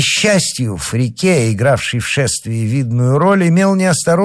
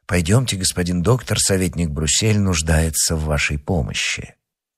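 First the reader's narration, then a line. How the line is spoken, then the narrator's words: Quiet. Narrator (Russian): тихо сказать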